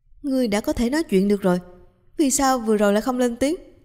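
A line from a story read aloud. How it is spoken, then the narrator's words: Shouting. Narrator (Vietnamese): Trịnh Tiểu Liễu cũng la lên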